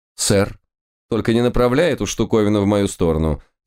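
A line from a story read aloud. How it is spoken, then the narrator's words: Stern warning. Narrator (Russian): строго предупредил Лис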